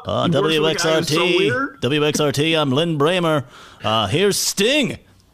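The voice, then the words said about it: Imitates a radio announcer voice. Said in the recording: “my WXRT imitation”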